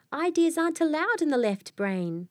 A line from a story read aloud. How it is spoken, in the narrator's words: Nolan cried